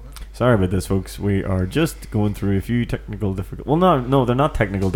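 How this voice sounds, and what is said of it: Usual voice. Nothing is said of it.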